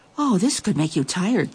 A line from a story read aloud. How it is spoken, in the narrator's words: thought the Nabal, standing there panting